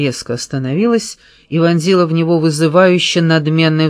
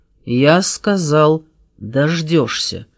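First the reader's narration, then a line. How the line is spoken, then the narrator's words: Said through teeth. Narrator (Russian): произнес сквозь зубы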